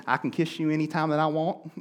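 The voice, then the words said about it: Put-on country accent. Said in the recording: “you've got to break out the country accent”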